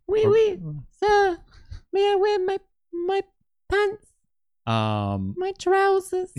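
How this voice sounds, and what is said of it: French accent drifting British. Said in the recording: “you want to do a French accent? ... Going a little British.”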